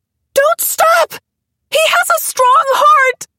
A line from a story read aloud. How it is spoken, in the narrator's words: she screamed, but her voice was drowned out by the whir of the rotors